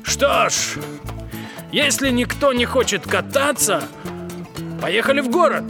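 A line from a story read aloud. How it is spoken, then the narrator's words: Offended. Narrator (Russian): Джип обиженно сказал Бигфуту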